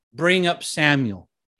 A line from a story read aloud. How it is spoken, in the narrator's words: said